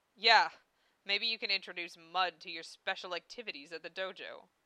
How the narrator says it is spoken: Zell chuckled

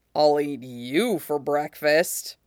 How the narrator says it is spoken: he growls

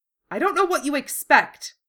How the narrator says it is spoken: Helsman snapped

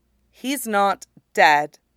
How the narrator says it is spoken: Depa says evenly

